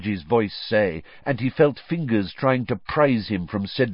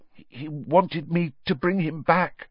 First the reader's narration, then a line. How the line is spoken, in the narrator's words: Harry muttered